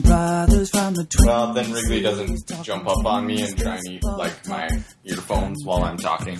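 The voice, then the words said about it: Nasal North Dakota accent. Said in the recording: “sweet North Dakota nasally accent”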